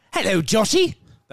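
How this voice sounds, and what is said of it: Joker-like imitation of another person's voice. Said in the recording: “do my best Markham impression ... That was actually pretty good. ... like someone doing an impersonation of the Joker”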